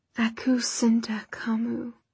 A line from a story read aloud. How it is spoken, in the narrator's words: Softly, Magnus said